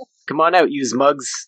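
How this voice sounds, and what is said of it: Put-on accent. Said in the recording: “Interesting accent for that area.”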